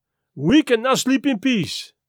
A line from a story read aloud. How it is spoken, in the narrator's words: declared happily